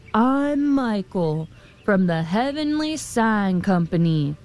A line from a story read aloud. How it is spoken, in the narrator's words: thundered the man